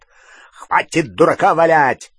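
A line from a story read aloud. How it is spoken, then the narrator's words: Barked. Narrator (Russian): рявкнул Грюм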